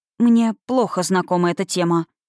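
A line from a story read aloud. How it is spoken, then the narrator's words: Forced out. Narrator (Russian): выдавила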